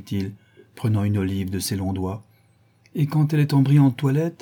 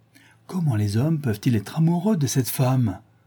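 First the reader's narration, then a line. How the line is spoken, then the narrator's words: Old woman exclaiming. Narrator (French): s'écria la vieille dame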